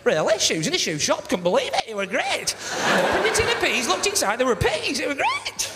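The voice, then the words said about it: Exaggerated surprised Lancashire accent. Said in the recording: “proper Lancashire, of course, is surprised to hell about everything all the time, innit?”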